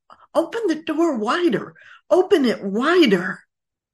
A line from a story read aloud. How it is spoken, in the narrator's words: spoke more and more urgently as she neared death, saying